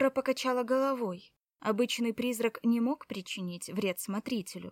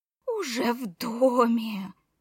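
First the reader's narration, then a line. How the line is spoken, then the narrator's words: Hoarse rasp. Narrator (Russian): прохрипела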